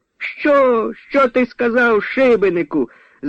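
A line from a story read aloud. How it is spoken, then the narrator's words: Loud shout. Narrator (Ukrainian): закричала голосно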